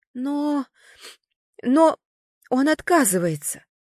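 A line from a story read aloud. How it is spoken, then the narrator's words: Breathless strained speech. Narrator (Russian): выдавила, хватая ртом воздух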